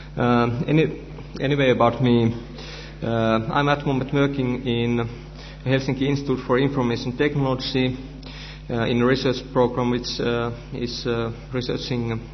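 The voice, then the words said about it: Finnish-accented English. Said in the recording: “It will be in English, which unfortunately is my third language after Finnish and Swedish ... my Finnish dialect”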